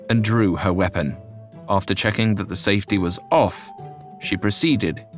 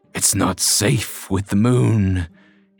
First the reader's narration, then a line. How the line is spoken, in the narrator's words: he growled